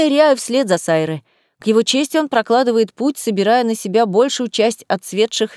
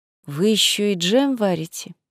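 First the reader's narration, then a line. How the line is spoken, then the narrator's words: Gloomy question. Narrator (Russian): уныло спрашиваю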